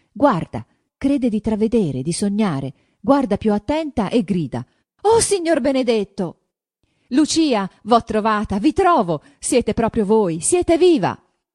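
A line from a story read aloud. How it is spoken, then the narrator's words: Trembling exclamation. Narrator (Italian): esclamò Renzo avanzandosi, tutto tremante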